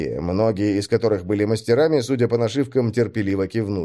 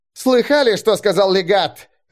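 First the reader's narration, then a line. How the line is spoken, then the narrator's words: Bark. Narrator (Russian): рявкнул Чито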